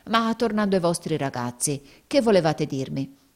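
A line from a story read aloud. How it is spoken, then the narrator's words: Exclaiming. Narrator (Italian): esclamò Squeers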